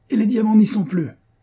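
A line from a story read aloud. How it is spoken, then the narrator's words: Distraught yelling. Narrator (French): vociféra Van Houben, aussi bouleversé que si on l'avait volé une seconde fois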